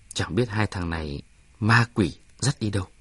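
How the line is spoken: Quiet. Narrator (Vietnamese): nói nhỏ

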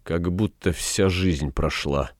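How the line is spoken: Muttered. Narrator (Russian): пробормотал Фагригет

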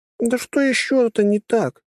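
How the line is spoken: Near pleading. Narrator (Russian): почти взмолилась Трасси

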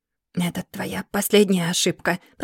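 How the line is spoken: Snake-like hiss. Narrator (Russian): прошипел Ауст, словно змей, готовый к броску

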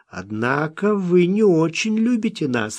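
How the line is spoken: Laughing. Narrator (Russian): рассмеялся Смок

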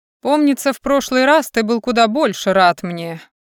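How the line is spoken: Amused snort. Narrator (Russian): хмыкнул повелитель Севера

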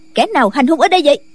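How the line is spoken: Woman shouting. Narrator (Vietnamese): bên ngoài có người phụ nữ quát

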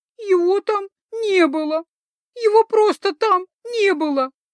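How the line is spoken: Sobbing. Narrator (Russian): рыдала

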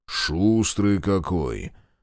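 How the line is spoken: Good-natured deep bass. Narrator (Russian): добродушно пробасил Павленко

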